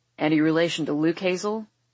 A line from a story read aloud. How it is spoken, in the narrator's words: Maverick rumbles